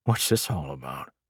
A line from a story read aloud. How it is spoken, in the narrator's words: the centurion muttered